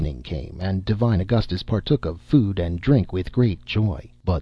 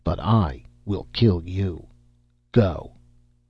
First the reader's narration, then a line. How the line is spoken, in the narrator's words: he said firmly